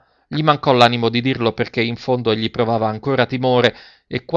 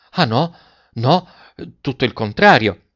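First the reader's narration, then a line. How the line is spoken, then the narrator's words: Heartfelt fervent exclamation. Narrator (Italian): esclamò De Rossi con uno slancio dell'anima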